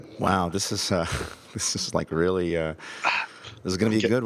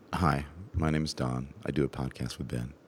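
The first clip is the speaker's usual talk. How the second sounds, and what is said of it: Deliberate vocal fry. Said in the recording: “trying to get a little vocal fry here”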